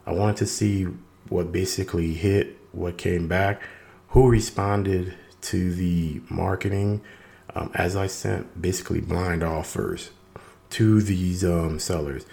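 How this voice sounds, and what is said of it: Raspy, hoarse voice. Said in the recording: “my voice feeling a little raspy as I'm recovering from COVID-19 ... the raspiness in my voice”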